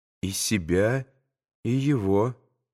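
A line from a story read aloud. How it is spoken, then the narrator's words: Quiet speech. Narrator (Russian): проговорил тихо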